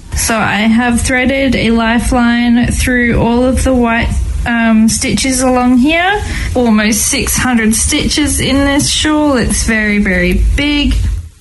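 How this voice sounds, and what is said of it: Australian accent. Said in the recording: “her usual Australian accent”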